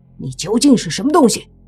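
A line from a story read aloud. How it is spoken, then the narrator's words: Angry roar. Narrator (Chinese): 莫凡怒喝道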